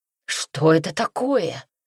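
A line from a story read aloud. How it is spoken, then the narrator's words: Frightened exclamation. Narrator (Russian): испуганно воскликнул Пино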